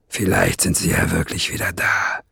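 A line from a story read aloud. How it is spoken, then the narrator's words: Murmured. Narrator (German): murmelte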